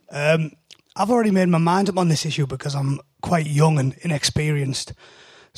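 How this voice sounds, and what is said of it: British accent. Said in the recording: “my unpleasant British accent”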